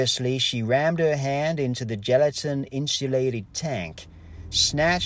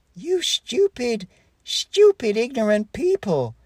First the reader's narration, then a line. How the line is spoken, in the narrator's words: yelled Dr